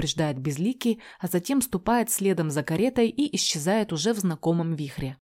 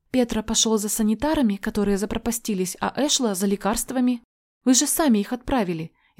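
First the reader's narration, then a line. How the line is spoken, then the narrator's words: Frightened blurt. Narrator (Russian): испуганно выдает она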